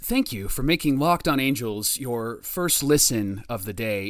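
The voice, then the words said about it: Mock general manager voice. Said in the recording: “in my GM voice”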